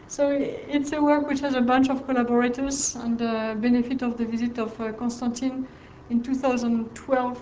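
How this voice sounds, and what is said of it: French accent. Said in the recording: “my French accent is too strong”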